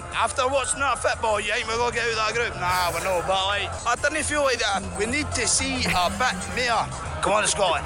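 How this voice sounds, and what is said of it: Scottish accent. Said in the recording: “I love his accent.”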